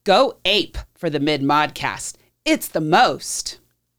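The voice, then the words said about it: Radio announcer voice. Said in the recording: “I'll use my best slogan radio announcer voice.”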